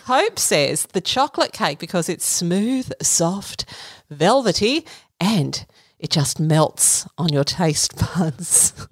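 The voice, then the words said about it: Seductive sultry voice. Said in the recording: “I said that in my seductive voice.”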